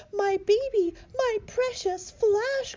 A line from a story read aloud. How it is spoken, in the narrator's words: cried Harry Spiders